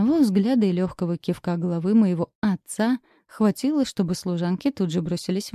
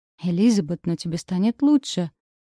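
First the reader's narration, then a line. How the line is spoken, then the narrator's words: Gentle coaxing. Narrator (Russian): уговаривал граф, пытаясь успокоить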